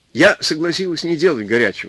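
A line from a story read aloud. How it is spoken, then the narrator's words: Plain. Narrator (Russian): сказала она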